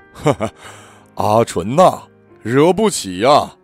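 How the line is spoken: Laughing heartily. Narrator (Chinese): 笑得开怀，说一句

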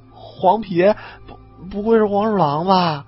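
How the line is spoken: Trembling voice. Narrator (Chinese): 李二狗先颤声说

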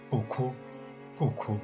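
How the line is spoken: Low, soothing murmur. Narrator (Chinese): 低声地叫着

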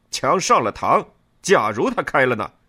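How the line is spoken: Shouting. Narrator (Chinese): 我喊道

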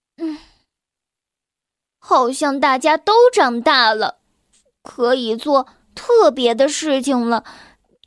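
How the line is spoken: Sighing. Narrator (Chinese): 他叹了口气说

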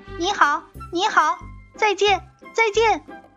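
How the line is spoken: Voice calling from overhead. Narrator (Chinese): 就听见头顶上叫

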